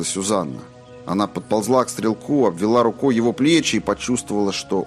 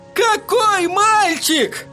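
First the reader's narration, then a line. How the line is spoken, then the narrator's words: Desperate wail. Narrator (Russian): отчаянно завопил Эдди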